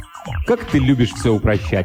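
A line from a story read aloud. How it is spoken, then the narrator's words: Irritated reply. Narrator (Russian): раздраженно ответил англичанин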